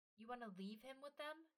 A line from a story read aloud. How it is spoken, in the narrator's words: Ymir snapped